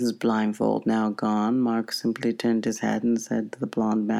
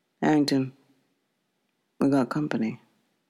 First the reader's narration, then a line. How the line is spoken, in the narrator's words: She calmly said